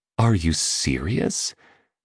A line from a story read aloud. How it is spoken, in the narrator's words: murmured a woman